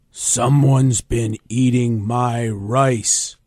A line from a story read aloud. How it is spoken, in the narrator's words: growled the Papa Bear